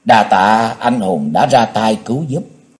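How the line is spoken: Ashamed, soft stammering. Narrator (Vietnamese): Nàng hổ thẹn khẽ ấp úng nói

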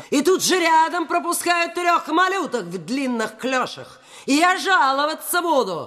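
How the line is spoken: Shrill indignant shouting. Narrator (Russian): кричала скандальная дама

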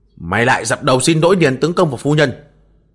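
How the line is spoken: Barked command. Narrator (Vietnamese): Tên cường đạo Diêm Cơ quát bảo

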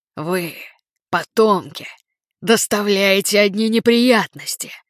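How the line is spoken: Bursting into laughter. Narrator (Russian): Жанна разразилась хохотом

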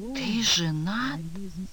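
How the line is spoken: Whispered. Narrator (Russian): прошептала Кира

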